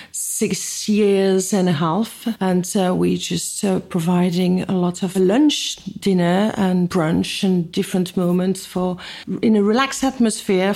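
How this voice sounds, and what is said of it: French accent. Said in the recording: “you are very clearly from France... I am French, as you can probably guess with the accent”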